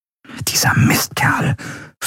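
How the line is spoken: Whispering. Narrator (German): flüsterte Andriel

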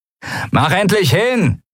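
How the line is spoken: Annoyed shout. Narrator (German): rief der Mensch mit den Argnenarben genervt

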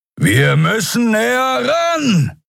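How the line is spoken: Shouting over howling wind. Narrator (German): rief Keru über den heulenden Fahrtwind

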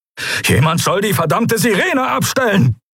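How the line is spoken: Barked. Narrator (German): bellte Telios

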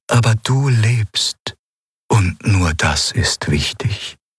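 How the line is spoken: Sad reply. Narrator (German): antwortete es traurig

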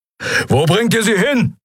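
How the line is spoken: Roaring. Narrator (German): brüllte Keru

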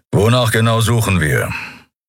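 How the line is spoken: Growled from behind. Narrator (German): Keru hinter sich knurren

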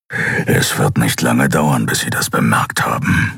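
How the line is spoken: Growl. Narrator (German): knurrte Keru

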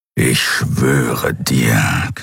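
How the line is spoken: Growling. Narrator (German): knurrte das Kriar

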